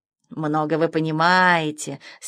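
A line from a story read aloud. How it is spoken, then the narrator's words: Condescending purr, cat. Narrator (Russian): снисходительно мурлыкнул кот Мефодий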